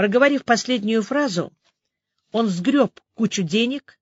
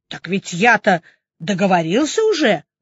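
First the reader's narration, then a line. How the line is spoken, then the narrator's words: Angry young man exclaiming. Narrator (Russian): в сердцах воскликнул парень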